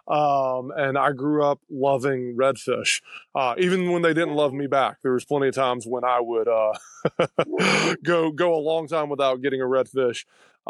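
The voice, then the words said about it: Strong Alabama Southern accent. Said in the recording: “I'm from Alabama, if you can't tell from my nasty accent.”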